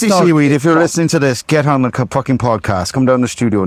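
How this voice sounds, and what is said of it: Usual voice. Nothing is said of it.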